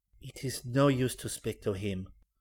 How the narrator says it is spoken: whispered the girl

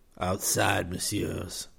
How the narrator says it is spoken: he rasped

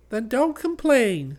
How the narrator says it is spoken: said the baby sweetly

